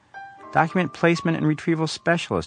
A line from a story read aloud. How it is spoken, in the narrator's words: Frida says in a hurt tone